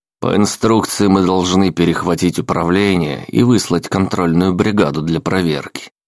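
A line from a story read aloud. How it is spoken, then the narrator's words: Plain. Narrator (Russian): сказал Ламонт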